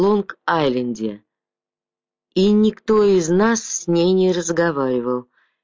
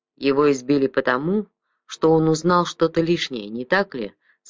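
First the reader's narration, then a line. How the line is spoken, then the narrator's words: Plain. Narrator (Russian): спросил Кривич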